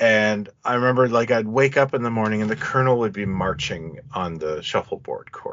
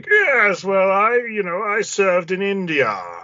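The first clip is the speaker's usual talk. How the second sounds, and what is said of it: Old colonel voice, Bane-like accent. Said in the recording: “He'd be like ... And that's the Bane accent.”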